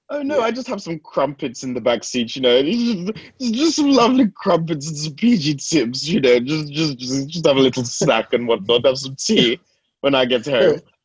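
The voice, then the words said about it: Exaggerated posh British accent. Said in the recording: “We'd have to sound extra British ... put on the baddest accent”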